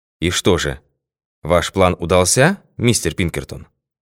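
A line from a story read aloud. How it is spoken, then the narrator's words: Very courteous question. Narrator (Russian): спросил председательствующий самым любезным тоном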